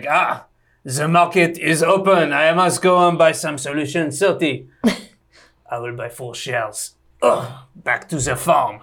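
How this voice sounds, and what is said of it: Imitated French farmer character voice. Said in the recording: “My imagination of French retail is a guy called Gilles ... that's my impression of French retail”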